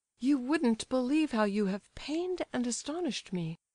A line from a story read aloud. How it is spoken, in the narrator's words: cried the prince